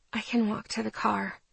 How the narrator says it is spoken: I said quietly

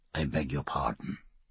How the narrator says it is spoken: murmured Stephen of the Vas

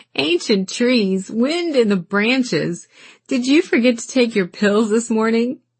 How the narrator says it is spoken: He laughed

